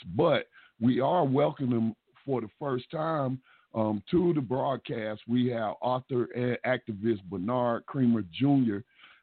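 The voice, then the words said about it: Slightly hoarse voice. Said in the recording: “I'm sounding a little hoarse.”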